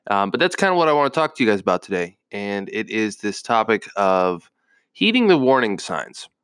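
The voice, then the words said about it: Nasal, congested voice. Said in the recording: “my voice sounds a little nasally, congested”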